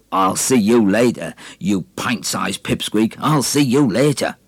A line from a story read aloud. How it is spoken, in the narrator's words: With steel-ribbed eyes and gorging veins bursting to explode, Basher spat out a crooked laugh and said